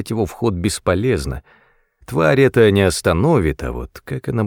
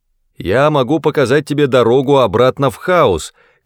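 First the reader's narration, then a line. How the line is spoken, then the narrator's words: Shout. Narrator (Russian): крикнул я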